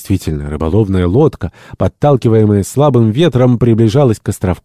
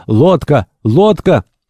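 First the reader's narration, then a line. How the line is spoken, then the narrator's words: Sailor shouting. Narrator (Russian): один из матросов, стоявших на страже в конце песчаной полосы, покрытой скалистыми отрогами, закричал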